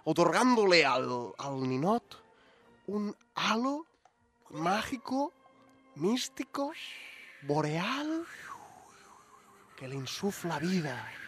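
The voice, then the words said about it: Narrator switches to a put-on accent. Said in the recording (Spanish): “A partir de ahora el narrador va a tener un acento tal que así”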